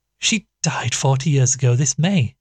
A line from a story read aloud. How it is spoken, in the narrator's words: said with a gasp